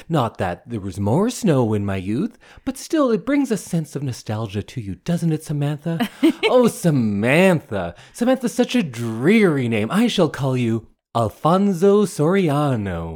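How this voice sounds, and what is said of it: Imitates a dramatic storybook character voice. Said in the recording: “that was a good imitation of Anne... why I'm talking like that”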